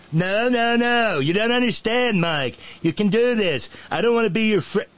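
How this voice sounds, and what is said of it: Imitates another person's voice. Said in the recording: “my stupid Trump impression”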